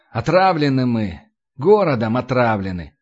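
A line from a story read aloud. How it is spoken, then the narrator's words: Sighing. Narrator (Russian): вздохнул Кирилл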